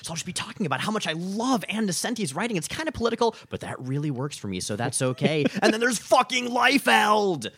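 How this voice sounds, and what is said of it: Animated, exaggerated highs and lows. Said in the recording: “Sample talking podcast voice ... like it's like me, but just a little more like higher highs and lower lows ... it's just like double the animation, and that's my podcast voice”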